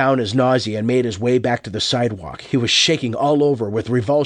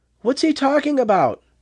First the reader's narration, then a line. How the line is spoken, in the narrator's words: Margaret asked nervously